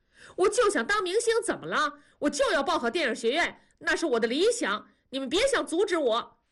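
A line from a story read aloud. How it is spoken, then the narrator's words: Shouting. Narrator (Chinese): 大宝就喊了起来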